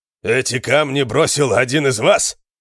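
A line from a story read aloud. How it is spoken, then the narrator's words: Shout. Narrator (Russian): крикнул он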